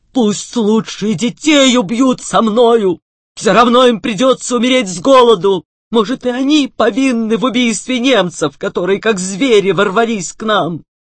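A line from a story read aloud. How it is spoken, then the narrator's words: Shouting again. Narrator (Russian): И опять закричал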